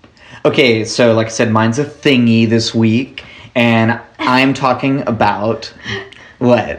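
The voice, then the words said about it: Enthusiastic exaggerated podcaster voice. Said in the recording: “Is that too enthusiastic? ... Am I doing my podcasting voice too hard? ... the inflections he does”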